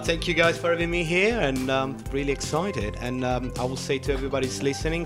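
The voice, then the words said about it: Italian accent. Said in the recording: “sorry for my Italian accent,”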